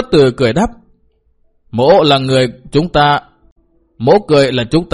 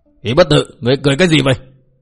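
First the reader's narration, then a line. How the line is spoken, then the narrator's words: Angry shouted question. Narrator (Vietnamese): Bao Đà Thắng giận dữ quát hỏi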